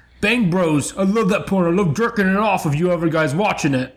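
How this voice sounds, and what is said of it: Puts on an accent. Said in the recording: “That's an accent.”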